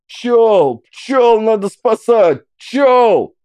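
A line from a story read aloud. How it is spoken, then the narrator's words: Shouted. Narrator (Russian): закричал Трофим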